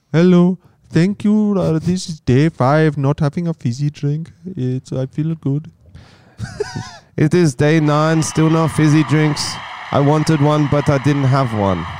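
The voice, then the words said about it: Impression of TikTok fizzy drink king. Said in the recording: “the fizzy drink king ... Rohit from TikTok ... In the most engaging way possible ... Do you want me to do an impression? ... Do an impression, please.”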